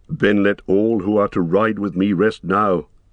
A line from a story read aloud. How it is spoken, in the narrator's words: said Gandalf